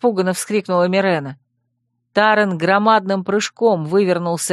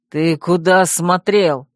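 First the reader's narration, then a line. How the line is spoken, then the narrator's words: Barked. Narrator (Russian): рявкнул он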